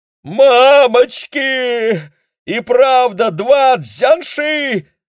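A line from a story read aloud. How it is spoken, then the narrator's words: Frightened yelling. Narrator (Russian): заорал дядюшка Демин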